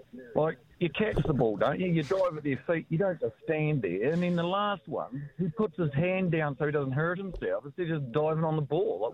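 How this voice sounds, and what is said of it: Thick southern New Zealand accent. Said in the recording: “You've got quite a thick accent from down the south way”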